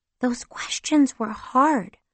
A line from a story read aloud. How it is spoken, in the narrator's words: my younger sister Seema whispered to me